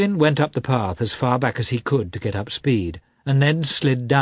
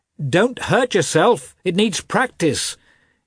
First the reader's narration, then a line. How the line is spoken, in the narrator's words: Nikolai Shcherbatsky called out